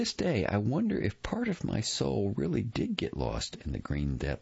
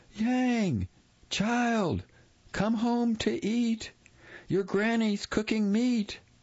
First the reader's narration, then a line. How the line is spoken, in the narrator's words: she called loudly